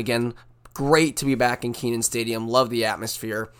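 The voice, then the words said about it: Hoarse, strained voice. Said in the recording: “my voice is a little shot. You know, we were cheering hard at the game.”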